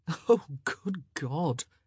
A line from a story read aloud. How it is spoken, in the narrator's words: Colin muttered, but he was chuckling all the while